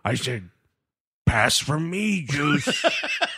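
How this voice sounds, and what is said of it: Imitates another person's voice. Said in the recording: “my Chris Berman impression”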